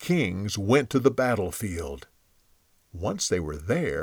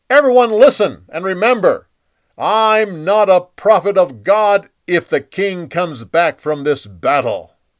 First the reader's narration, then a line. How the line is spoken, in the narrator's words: Micaiah yelled at the crowd